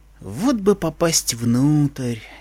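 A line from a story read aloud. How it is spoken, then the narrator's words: Dreamy drawl. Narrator (Russian): мечтательно протянул я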